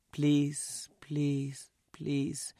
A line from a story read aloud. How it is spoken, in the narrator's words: more softly each time